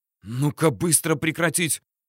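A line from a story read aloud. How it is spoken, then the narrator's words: Hissing. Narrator (Russian): зашипела из-за его плеча Грачева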